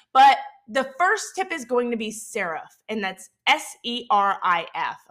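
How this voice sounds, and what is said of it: Southern Mississippi accent. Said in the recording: “my Southern Mississippi accent”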